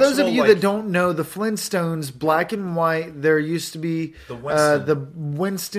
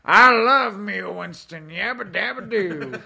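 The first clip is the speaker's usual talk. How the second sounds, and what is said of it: Bad cartoon character voice impression. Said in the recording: “worst Fred Flintstone impression you're ever going to hear”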